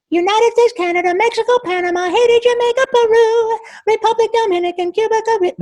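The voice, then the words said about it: Cartoon character voice in falsetto. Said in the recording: “I can still squeeze my voice and be in my falsetto ... I can still make it sound like Yakko.”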